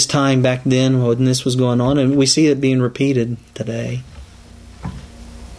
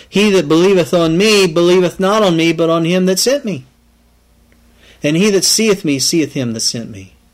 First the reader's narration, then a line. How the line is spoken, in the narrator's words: Jesus cried and said